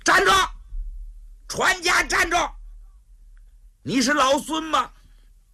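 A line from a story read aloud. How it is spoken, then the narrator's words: Two men shouting. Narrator (Chinese): 这俩家就喊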